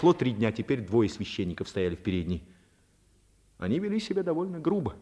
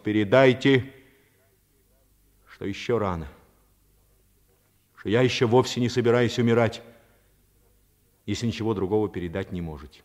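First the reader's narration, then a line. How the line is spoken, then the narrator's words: Loud. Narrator (Russian): Паганини громко произнес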